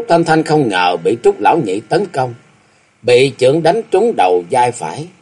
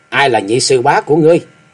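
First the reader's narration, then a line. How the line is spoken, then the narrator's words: Cold sharp shout. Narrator (Vietnamese): miệng lạnh lùng quát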